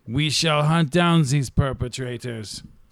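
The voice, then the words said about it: Put-on German accent. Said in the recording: “did you just use a German accent?”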